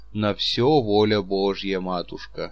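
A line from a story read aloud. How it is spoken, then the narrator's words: Sighing. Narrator (Russian): сказал Чичиков, вздохнувши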